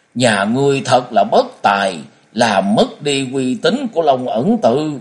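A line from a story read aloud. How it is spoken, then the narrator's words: Bitter, resentful interruption. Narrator (Vietnamese): phương trưởng không chờ cho Tuệ Hoa nói hết câu, liền cắt ngang câu nói bằng một giọng vô cùng hằn học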